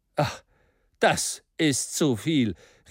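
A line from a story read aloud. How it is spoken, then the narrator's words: Opponent calling out. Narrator (German): rief der Gegner Michel Ardans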